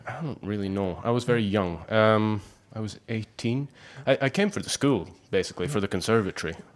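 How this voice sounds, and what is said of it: Scottish accent. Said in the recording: “You do have a wonderful Scottish accent.”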